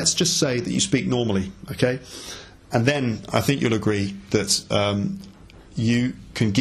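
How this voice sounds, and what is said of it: Usual voice. Nothing is said of it.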